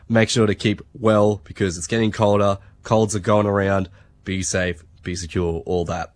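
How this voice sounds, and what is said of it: Congested, slightly out-of-it voice. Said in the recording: “Sorry if I sound a bit congested tonight, a bit out of it. I've come down a bit of a sickness.”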